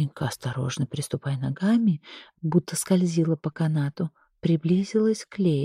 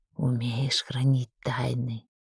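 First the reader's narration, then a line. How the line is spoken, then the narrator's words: Whispered question. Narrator (Russian): шепотом спросила Лея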